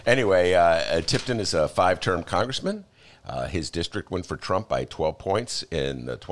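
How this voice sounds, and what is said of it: Usual voice. Nothing is said of it.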